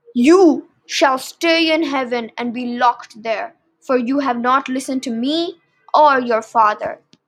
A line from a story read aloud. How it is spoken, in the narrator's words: said Zeus